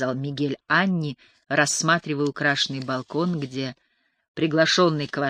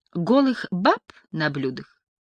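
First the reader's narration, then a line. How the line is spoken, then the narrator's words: Laughing. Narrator (Russian): Мигель засмеялся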